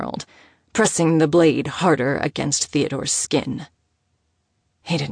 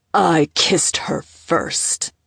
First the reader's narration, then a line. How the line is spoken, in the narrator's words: Oscar growled, his voice sounding foreign to his own ears